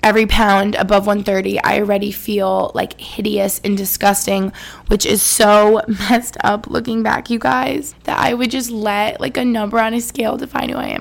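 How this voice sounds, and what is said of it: Emotional, choked-up voice. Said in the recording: “you can probably tell I'm getting emotional ... Sorry, I'm getting emotional”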